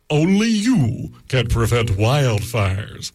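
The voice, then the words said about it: Imitates Smokey Bear cartoon mascot voice. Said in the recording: “my Smokey Bear impression”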